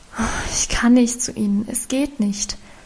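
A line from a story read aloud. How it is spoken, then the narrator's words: Sighing reply. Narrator (German): erwiderte sie seufzend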